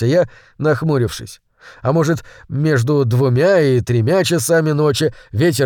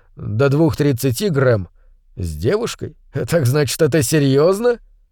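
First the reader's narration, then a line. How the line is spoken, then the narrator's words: Laughing. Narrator (Russian): Он рассмеялся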